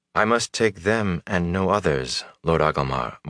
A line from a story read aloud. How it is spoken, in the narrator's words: Moraine said gently